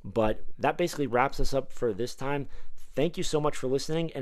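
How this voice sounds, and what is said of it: Slightly hoarse voice. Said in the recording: “my voice is a little hoarse ... my voice is a little hoarse”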